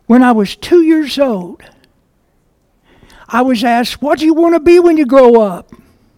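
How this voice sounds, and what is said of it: Kentucky accent. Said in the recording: “I'm from Kentucky, so if you hear an accent come out, that's what it is”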